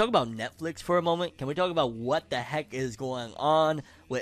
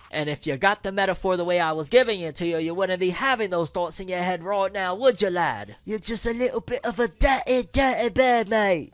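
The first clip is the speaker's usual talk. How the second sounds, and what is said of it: Put-on accent. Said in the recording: “throw the accent out”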